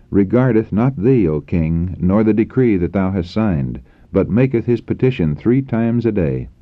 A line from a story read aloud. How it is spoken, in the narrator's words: they exclaimed